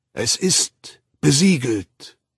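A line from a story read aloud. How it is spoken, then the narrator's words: Old man, loud voice. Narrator (German): sagte der alte Mäziner mit lauter Stimme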